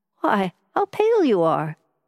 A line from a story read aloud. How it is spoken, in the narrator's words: she exclaimed